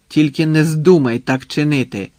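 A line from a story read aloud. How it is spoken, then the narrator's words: Sharp reply. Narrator (Ukrainian): різко відказав Швайка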